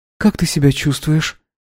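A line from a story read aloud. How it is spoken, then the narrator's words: Quiet, smiling question. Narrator (Russian): Анна тоже улыбнулась и тихо спросила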